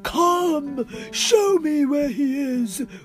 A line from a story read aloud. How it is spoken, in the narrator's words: roared Budraj